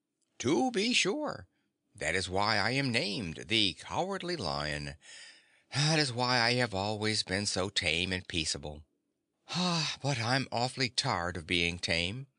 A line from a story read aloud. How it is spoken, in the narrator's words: added the lion with a sigh